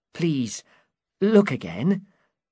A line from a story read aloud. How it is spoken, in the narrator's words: Sancho Panza said kindly